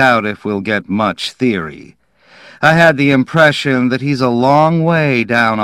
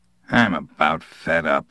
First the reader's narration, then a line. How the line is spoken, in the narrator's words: Hurley muttered